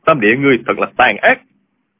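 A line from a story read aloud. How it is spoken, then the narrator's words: Sharp shout. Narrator (Vietnamese): Diêu Thanh Tuyền quát lên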